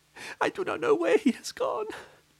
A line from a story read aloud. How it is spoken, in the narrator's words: sobbed the wife